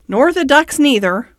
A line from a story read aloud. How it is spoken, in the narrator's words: replied Rat cheerfully